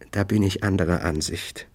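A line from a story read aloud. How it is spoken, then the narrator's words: Gentle, smiling. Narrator (German): Sie lächelte sanft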